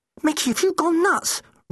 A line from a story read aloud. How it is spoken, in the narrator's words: Rose cried